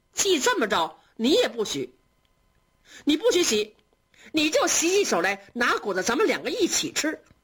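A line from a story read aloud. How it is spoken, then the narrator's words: Laughing. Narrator (Chinese): 宝玉笑着说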